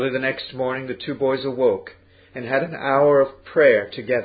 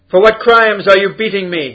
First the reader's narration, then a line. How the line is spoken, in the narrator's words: called out